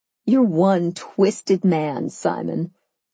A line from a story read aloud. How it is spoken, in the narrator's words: I chuckled